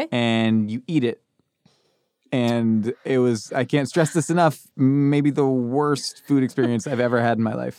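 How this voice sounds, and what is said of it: Distinctive regional accent. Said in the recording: “I love your accent. I love the way you speak ... I love the way your accent is. It's incredible.”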